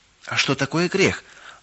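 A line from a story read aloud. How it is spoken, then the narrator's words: Timid question. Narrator (Russian): робко спросила Галочка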